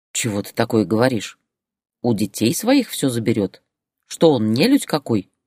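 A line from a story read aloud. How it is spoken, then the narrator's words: Grumbling. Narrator (Russian): проворчала Татьяна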